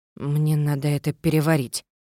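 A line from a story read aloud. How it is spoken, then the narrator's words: Mutter. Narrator (Russian): Пробормотала я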